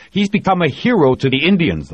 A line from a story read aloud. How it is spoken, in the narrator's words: the vice president snapped